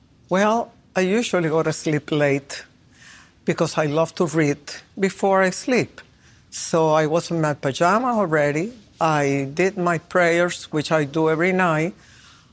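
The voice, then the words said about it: Speaker's accented English. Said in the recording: “They have to forgive my accent ... Your accent is perfect.”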